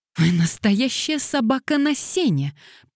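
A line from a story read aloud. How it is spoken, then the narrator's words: Ardent exclamation. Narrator (Russian): пылко воскликнула Дейзи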